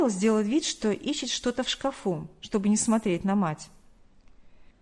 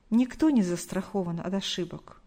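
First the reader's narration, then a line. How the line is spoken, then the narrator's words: Sighed. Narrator (Russian): вздохнула Галина Николаевна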